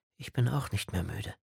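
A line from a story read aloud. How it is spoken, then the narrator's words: Quiet. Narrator (German): sagte sie leise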